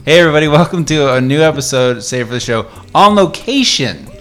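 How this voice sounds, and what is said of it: Exaggerated radio announcer voice. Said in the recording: “put on my radio voice ... I feel like I should do like a radio voice”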